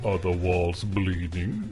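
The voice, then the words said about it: Spooky Haunted Mansion narrator voice. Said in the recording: “my Haunted Mansion impression”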